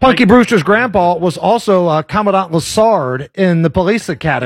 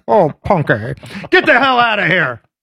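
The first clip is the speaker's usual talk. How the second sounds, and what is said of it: Imitates an old TV character's voice. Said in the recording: “great Punky Brewster grandpa impression”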